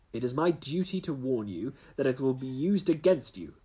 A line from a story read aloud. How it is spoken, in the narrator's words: cried the inspector, with the magnificent fair play of the British criminal law